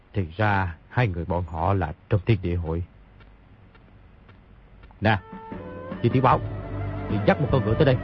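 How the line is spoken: Muttering. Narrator (Vietnamese): lẩm bẩm

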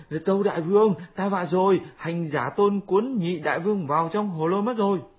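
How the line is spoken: Panicked crying out. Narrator (Vietnamese): Bọn tiểu yêu trong động nhìn thấy, hoảng sợ kêu lên

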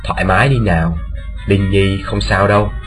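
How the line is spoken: Soft reassuring. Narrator (Vietnamese): Điền Bất Dịch khe khẽ bảo

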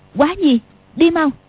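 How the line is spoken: Sharp shout. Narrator (Vietnamese): Tiểu Long Nữ ... quát

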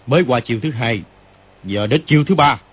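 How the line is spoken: Shouting. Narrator (Vietnamese): Kim Luân Pháp Dương quát lên

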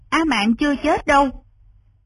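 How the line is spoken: Loud, bitter. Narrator (Vietnamese): Lý Văn Tú trong lòng càng thêm chua xót, lớn tiếng nói

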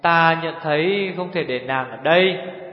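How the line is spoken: Soft sigh. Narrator (Vietnamese): Nhất Điểm Hồng ... có thở dài nhẹ nhẹ

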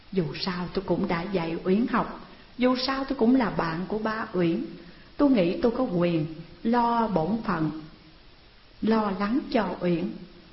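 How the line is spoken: Stammering explanation. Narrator (Vietnamese): Đạt ấp úng giải thích

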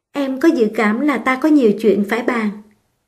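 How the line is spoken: Shy, smiling. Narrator (Vietnamese): Nàng bẽn lẽn mỉm cười

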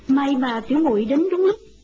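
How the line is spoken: Smiling. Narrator (Vietnamese): Doanh Doanh mỉm cười nói

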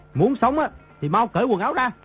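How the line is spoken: Distant shout. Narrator (Vietnamese): Trên đỉnh núi có người quát

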